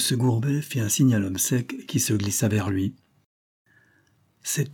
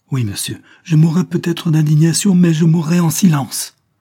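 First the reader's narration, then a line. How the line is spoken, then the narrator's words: Exalted, passionate cry. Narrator (French): s'écria Julia, avec cette exaltation italienne qui lui était propre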